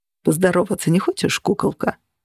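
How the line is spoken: Purring. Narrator (Russian): промурлыкал Джен

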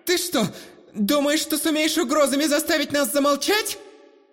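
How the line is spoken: Loud but less confident indignation. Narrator (Russian): уже не столь уверенно, но все же так же громко попыталась возмутиться незнакомка

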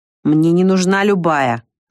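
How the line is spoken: Angry, through gritted teeth. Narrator (Russian): зло процедил Маркус

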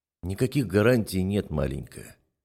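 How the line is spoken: Soft speech. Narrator (Russian): мягко говорю

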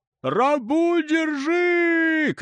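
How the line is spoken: Shouting. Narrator (Russian): кричал краснолицый

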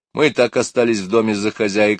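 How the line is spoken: Plain. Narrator (Russian): сказала Мэри

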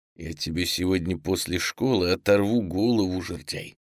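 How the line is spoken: Quiet, through gritted teeth. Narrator (Russian): тихо процедил сквозь зубы Саша

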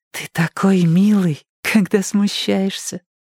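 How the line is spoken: Laughing. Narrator (Russian): Кирстен засмеялась

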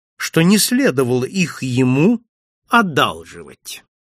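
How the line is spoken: Calm. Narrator (Russian): спокойно произнес я

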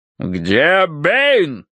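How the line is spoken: Deep bass voice. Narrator (Russian): пробасил полковник

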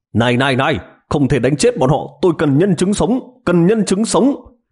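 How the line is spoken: Hurried shout. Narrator (Vietnamese): Triệu Ngọc vội vàng la lên với sĩ quan kia

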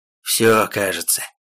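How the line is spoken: Demon's exhale. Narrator (Russian): выдохнул демон

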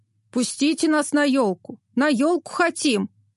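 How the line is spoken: Fathers shouting in scary voices. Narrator (Russian): кричали папы страшными голосами

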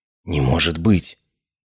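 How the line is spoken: Breathless whisper. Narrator (Russian): прошептала она, задержав дыхание

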